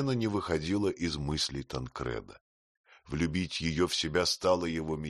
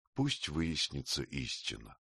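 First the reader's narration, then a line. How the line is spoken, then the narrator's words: Very quiet, to herself. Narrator (Russian): отдаваясь течению своей мысли, забывая, что перед нею чужой ее печали равнодушный человек, сказала тихо-тихо, как про себя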